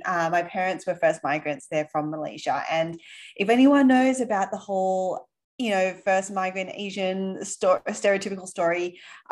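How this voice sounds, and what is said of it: Australian accent. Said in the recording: “you might be able to tell from my accent, ... Aussie.”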